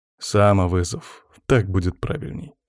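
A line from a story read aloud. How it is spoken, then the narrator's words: Snorting. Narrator (Russian): хмыкнул я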